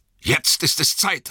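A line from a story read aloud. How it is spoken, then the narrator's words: Call. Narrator (German): rief Gandalf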